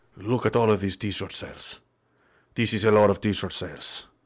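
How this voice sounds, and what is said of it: Put-on Spanish-Mexican accent. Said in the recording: “I don't know why they have a Spanish-Mexican accent. What is a Romanian accent? Is it Dracula? We're keeping the Spanish one.”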